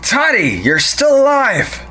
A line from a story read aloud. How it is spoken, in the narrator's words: Monty shouted